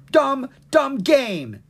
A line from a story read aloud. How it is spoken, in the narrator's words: he yelled